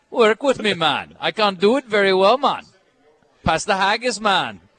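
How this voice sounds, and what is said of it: Put-on Jamaican accent sounding Scottish. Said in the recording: “your Jamaican accent sounds Scottish ... We sound like Jamaican leprechauns ... Now I sound Scottish again, man ... you have it's the perfect Jamaican accent”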